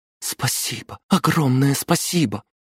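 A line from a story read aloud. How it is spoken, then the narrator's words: Whisper. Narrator (Russian): Аделина прошептала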